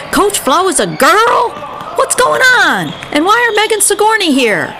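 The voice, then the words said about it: Alarmed, agitated voice. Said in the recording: “said in an alarming voice ... why are you talking like that?”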